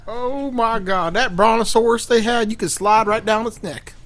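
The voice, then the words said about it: Put-on old-timey southern accent. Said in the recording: “I don't know why I'm doing a southern accent... it's just because it's old-timey”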